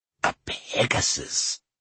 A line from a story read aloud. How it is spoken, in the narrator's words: he breathed